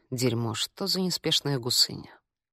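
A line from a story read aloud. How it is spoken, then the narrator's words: Muttering in French. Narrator (Russian): толстый мужчина пробормотав по-французски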